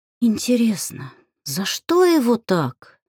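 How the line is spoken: Dreamy sigh. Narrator (Russian): мечтательно вздохнула Алька

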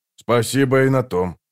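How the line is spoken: Grumble. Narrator (Russian): проворчал скворец

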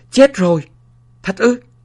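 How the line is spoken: Shouted. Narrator (Vietnamese): Gã bệ binh hét lên

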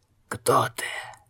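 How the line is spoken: Undead, hoarse rasp. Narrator (Russian): прохрипел один из мертвяков

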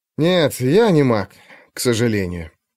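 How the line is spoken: Sighing. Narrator (Russian): вздохнул Алексей

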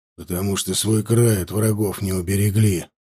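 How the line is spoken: Grumbled. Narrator (Russian): буркнул Варлыга

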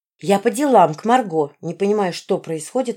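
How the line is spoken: Plain. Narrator (Russian): ответила я

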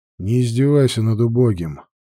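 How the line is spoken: Gloomy. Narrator (Russian): мрачно произнес Грег

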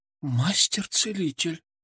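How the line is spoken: Whisper. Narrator (Russian): прошептала она

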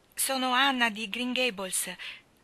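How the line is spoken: Child's trembling voice. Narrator (Italian): rispose la bambina con la voce che tremava

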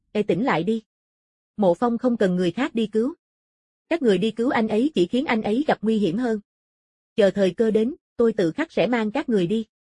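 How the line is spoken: Calm, indifferent. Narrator (Vietnamese): Phong Mục vẫn thản nhiên nói

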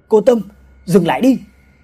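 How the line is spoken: Shouting. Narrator (Vietnamese): Vũ la lên

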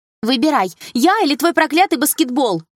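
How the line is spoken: Shouted. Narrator (Russian): выкрикнула Милана

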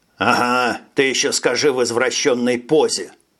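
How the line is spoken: Grumble. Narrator (Russian): пробурчал Фред

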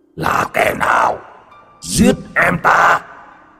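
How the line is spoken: Monstrous roar. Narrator (Vietnamese): quái vật từ địa ngục, nó gầm thét

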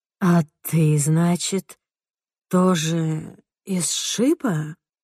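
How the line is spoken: Sleepy question. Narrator (Russian): сонным голосом спрашивает Доди

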